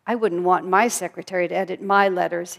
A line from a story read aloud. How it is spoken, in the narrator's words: said